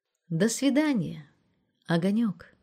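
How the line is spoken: Affectionate. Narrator (Russian): Ласково сказала военврач 3-го ранга

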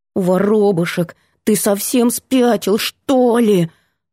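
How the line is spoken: Growling into phone. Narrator (Russian): Прорычала в трубку

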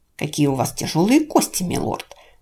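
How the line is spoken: Hissing, complaining whisper. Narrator (Russian): шипящим шепотом сетовала она

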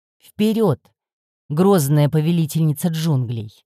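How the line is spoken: Mock-grand exclamation. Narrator (Russian): Шутливым пафосом воскликнул он

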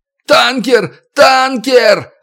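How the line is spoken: Frantic repeated yelling. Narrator (Russian): орал, как заведенный Малик

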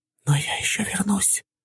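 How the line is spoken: Whisper inside head. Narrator (Russian): услышал шепот в голове

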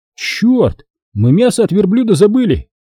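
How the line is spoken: Exclaimed. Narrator (Russian): воскликнул Хасан

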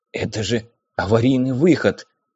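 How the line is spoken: Surprised whisper. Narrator (Russian): прошептал он, удивляясь

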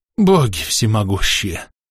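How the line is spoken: Relieved exhale. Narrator (Russian): Бледный Мефан облегченно выдохнул

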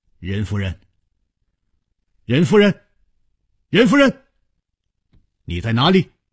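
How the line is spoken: Calling out. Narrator (Chinese): 他一面呼唤着

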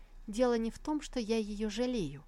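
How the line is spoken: Plain. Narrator (Russian): ответила Сусу

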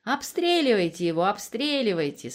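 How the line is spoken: Laughing. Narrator (Russian): смеялась Алена

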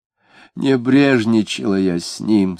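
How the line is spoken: Moaning. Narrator (Russian): стонала она

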